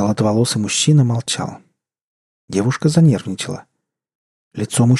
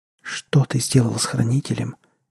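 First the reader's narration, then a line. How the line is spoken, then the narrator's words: Barely audible whisper. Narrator (Russian): еле прошептала девушка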